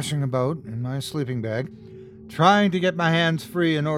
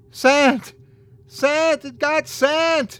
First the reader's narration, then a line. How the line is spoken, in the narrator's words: started screaming